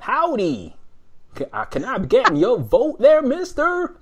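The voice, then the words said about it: Exaggerated comedy American accent. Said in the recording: “I can't do the accent, but I'm gonna you know comedy American ... he sounds nothing like some yokel from from the deep south”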